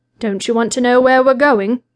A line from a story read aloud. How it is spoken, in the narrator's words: asked, in an amused voice